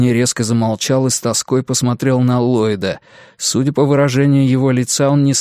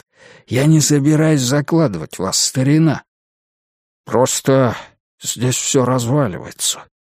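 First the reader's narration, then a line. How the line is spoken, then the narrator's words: Crushed, despondent voice. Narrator (Russian): убитым голосом сказал Уитни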